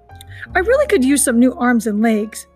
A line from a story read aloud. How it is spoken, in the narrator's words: the robot chuckled at her own bad joke